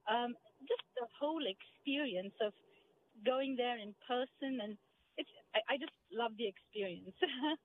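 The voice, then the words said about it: Indian-accented English. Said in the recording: “that doesn't sound like any Charles County accent that I know of ... I'm originally from India.”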